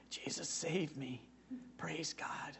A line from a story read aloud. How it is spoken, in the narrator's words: he whispered